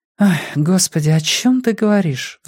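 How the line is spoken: Sighing. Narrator (Russian): вздохнула Каролина

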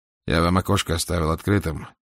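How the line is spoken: Dry. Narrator (Russian): сказал он сухо

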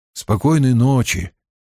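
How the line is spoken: Muttering. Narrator (Russian): пробормотал он

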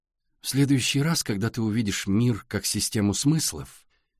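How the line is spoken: Soft gentle voice. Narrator (Russian): мягко сказала Александра

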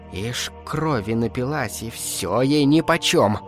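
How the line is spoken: Hissing. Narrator (Russian): шипела Агнешка

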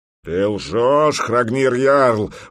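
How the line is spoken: Roaring big man. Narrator (Russian): взревел здоровяк

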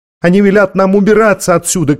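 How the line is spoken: Shout. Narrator (Russian): крикнул он

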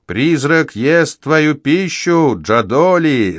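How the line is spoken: Yelling, mouth full. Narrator (Russian): заорал я, не прекращая жевать

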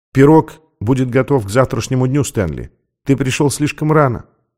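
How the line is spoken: Quiet. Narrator (Russian): сказала она тихо

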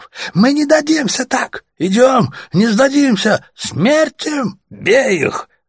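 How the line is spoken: Yelling from crowd. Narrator (Russian): завопил кто-то еще в толпе

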